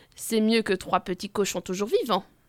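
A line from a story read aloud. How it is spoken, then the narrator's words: Grumbled. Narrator (French): grommelle le président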